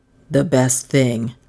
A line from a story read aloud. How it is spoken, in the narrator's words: he said